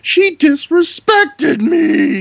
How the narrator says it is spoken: He starts whining in a really high-pitched voice

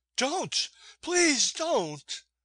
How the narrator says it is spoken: Maud had seen my first blow, and she cried

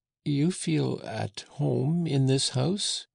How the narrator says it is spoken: said Jean-Jacques in a trembling voice

